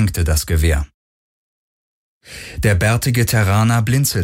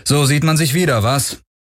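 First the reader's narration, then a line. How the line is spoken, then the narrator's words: Cool call. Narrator (German): rief Garland ohne große Herzlichkeit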